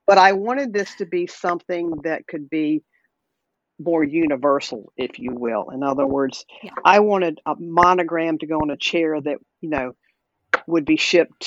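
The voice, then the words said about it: Southern American accent. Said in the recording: “Obviously, you can tell I'm a Southerner probably by my accent”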